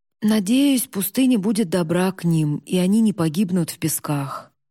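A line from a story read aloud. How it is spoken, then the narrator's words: Heavy sigh. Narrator (Russian): Сано тяжело вздохнул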